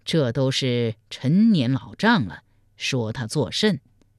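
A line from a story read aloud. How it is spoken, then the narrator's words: Cold sneer. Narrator (Chinese): 赵匡胤听得直皱眉头，冷笑说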